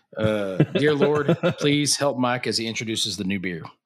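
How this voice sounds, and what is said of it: Southern preacher-style prayer voice. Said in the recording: “my Southern prayer impersonation”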